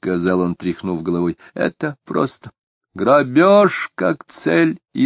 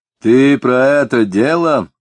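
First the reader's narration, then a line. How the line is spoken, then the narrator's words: Sighing. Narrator (Russian): сказал Дронов, вздохнув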